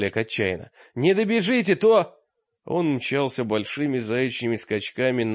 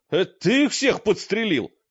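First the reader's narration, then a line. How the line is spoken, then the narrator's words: Loud bark. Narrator (Russian): гаркнул мрак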